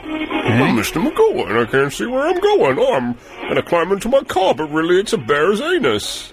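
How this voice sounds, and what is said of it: Mr. Magoo cartoon character voice. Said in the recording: “my impression of Mr. Magoo is pretty spot on”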